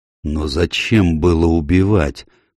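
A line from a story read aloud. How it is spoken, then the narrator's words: Hollow muffled question. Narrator (Russian): спросил ван Олден глухим голосом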